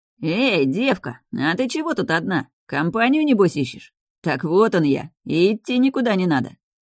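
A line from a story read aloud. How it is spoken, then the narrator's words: Leering chuckle. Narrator (Russian): Сально хохотнул один из посетителей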